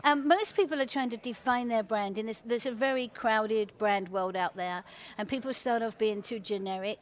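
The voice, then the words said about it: English accent. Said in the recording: “You get away with a lot with an English accent.”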